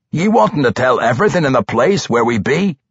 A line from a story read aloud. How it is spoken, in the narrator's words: Somewhere back behind them, Guinevere roared